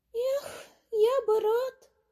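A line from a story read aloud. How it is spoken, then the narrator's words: Sighing little mouse. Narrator (Russian): вздохнул мышонок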